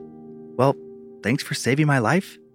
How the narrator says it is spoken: she said, her voice weak

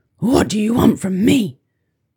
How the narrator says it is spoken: grunted the new bear

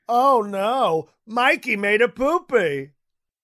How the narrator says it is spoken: yelling

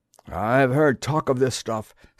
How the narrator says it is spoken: said one of the men nervously

